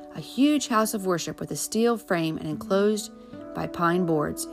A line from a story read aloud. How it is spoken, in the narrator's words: his father said firmly